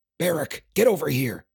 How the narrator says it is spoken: hissed

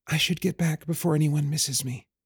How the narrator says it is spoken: Elisa whispered

